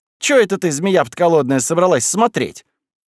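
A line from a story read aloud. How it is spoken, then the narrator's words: Hurried speech. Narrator (Russian): Кузьма торопливо сказал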